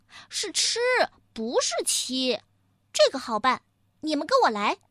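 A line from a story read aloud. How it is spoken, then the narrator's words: Piglet laughing. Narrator (Chinese): 小猪又哈哈笑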